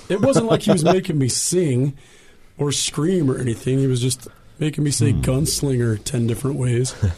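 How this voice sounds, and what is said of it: Hoarse voice from laryngitis. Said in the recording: “I don't sound like it ... I don't know how I got laryngitis, because I'm not sick ... I just lost my voice”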